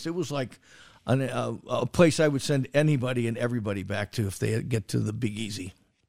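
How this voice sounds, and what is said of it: Hoarse, fading voice. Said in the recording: “Look at me, my voice. I'm losing my voice. It must have been all the booze I was drinking last weekend.”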